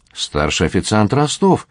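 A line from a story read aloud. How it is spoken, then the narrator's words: Displeased exclamation. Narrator (Russian): воскликнул недовольным тоном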